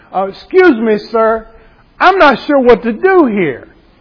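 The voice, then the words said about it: Thick Southern accent. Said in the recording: “I said it in my thickest of Southern accents”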